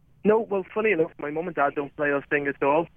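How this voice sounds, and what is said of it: Liverpool English accent. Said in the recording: “your accent kind of tells a different story. You grew up in Liverpool.”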